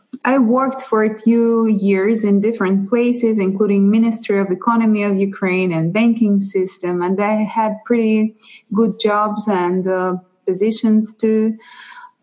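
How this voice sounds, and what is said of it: Russian and Ukrainian accent. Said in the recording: “if somebody is curious about my accent, it's from Russia and from Ukraine”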